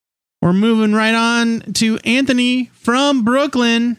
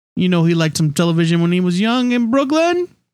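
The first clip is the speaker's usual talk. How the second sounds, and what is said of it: Bad put-on Brooklyn accent. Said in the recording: “That was just the worst Brooklyn accent.”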